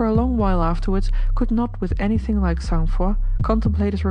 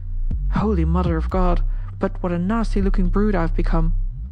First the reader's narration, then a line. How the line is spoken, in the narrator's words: he could not forbear exclaiming